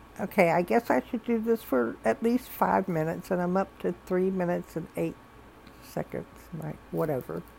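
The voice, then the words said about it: Slight Southern US accent. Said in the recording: “I'm a little bit southern, I think, as you can tell from my accent.”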